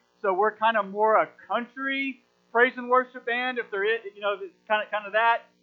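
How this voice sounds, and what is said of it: Accent with slight twang. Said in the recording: “with my accent, there's a little bit of twang”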